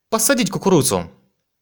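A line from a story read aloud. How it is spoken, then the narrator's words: Happy shout. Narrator (Russian): Джао выглядел счастливым, когда выкрикнул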